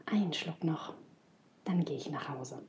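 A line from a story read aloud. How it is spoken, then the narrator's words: Murmured. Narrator (German): Jürgen murmelte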